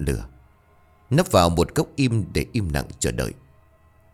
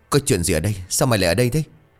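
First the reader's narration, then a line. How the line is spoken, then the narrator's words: Trembling voice. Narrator (Vietnamese): Sảo run rẩy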